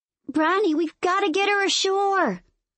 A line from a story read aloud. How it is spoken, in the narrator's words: I yell